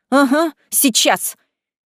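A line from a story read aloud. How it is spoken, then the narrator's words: Indignant snort. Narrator (Russian): я возмущенно фыркнула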